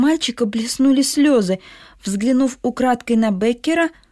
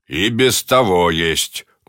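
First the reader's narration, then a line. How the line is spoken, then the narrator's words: Rude interruption. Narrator (Russian): грубо перебил Беккер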